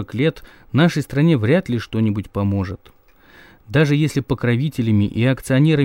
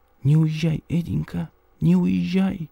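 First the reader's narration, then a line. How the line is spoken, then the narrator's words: Whisper. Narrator (Russian): она мне шептала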